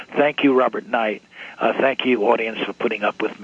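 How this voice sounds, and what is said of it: Hoarse, strained voice. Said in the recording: “I know I've been raving, and I know that I'm losing my voice.”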